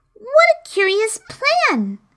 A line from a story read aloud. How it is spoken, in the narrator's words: exclaimed Alice